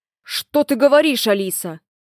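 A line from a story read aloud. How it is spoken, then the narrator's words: Sharp tone. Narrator (Russian): резко произнес Большой Джон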